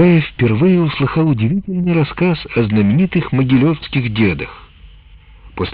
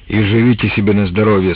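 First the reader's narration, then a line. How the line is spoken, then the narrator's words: Plain. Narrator (Russian): сказал Трофим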